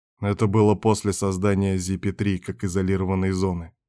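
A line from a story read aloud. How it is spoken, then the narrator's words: Quiet interjection. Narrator (Russian): тихо вмешался в разговор Берг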